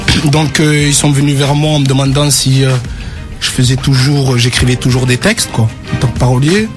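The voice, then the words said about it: Slight southern French accent. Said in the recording (French): “ce petit léger accent me rappelle quelque part le sud”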